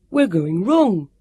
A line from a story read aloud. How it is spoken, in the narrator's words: Sam was puffing